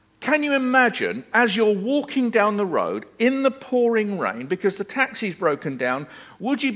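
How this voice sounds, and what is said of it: Usual voice. Nothing is said of it.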